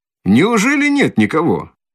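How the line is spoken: Ringing cheerful shout. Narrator (Russian): Звонко и весело закричал подошедший

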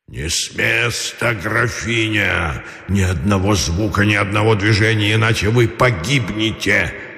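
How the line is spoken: Hoarse hissing monster whisper. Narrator (Russian): хрипло-свистящий шепот страшного чудовища

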